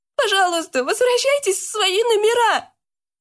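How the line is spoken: Shouting, near tears. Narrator (Russian): Чуть не плача, прокричала

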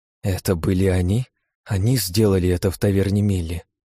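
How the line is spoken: Trembling, furious voice. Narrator (Russian): дрожащим голосом произнесла Лия, злости, гнева и ненависти которой, казалось, можно было коснуться рукой

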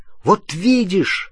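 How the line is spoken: Exclaiming. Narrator (Russian): воскликнул Рон

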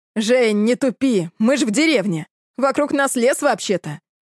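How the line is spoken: Short chuckle. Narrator (Russian): хохотнул Дэн

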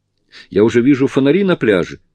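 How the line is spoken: Joyful exclamation. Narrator (Russian): радостно воскликнула Сьюзи

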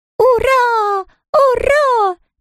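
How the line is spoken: Squeaking and howling chorus. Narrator (Russian): пищали цыплята и подвывали лисята

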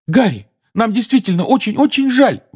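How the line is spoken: Desperate exclamation. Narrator (Russian): в отчаянии воскликнула Гермиона

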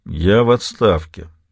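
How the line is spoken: Grumbled. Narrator (Russian): проворчал Донован

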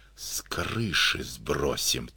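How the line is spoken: Quiet. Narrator (Russian): тихо сказал Ватнин

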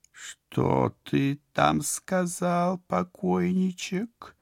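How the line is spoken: Slow, breathy female drawl. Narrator (Russian): Нарочито, медленно, с придыханием протянул женский голос

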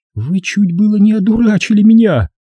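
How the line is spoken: Trembling voice. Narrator (Russian): сказала дрогнувшим голосом

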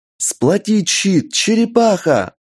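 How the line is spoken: Yell. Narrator (Russian): заорала Инга

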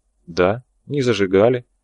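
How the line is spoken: Priest, calm confirmation. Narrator (Russian): все так же спокойно подтвердил священник

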